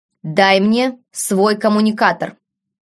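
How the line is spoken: Sudden stern command. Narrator (Russian): неожиданно строгим тоном приказал

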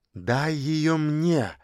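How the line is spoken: Pleading request. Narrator (Russian): попросила Женечка

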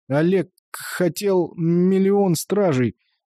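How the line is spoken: Stuttering and wheezing. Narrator (Russian): Дима заикается и хрипит

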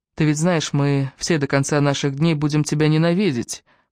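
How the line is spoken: Flat, detached tone. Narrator (Russian): произнесла Эбби за моей спиной ровным, безучастным тоном

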